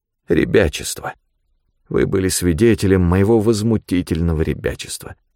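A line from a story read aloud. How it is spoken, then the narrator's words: Sad. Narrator (Russian): печально сказал Тагоми секретарю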